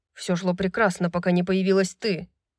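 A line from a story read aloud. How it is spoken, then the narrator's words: Sullen grumble. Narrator (Russian): Угрюмо пробурчал он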